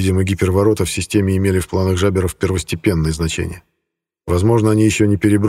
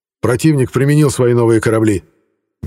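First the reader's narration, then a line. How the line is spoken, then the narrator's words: Abrupt shout. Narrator (Russian): без предисловий выкрикнул адмирал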